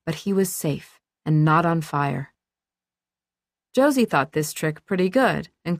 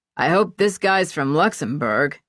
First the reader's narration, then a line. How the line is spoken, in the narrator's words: Charlie said, too loudly